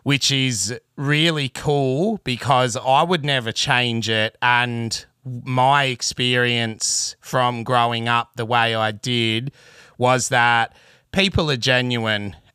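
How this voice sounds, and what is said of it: Broad bogan Australian accent. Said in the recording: “some would say, bogan accent. But as I tell people, it's the real deal. You really can't fake this type of accent.”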